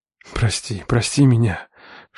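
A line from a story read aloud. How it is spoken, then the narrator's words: Whisper in ear. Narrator (Russian): шептал ей на ухо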